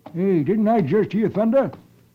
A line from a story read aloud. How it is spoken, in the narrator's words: suddenly exclaims